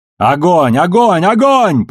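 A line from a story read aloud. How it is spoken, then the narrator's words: Shouted. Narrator (Russian): прокричала Бобби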